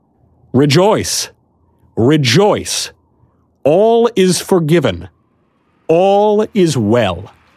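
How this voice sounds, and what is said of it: Loud, proclaiming shout. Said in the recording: “raised my voice again so that the whole crowd could hear me ... louder I added”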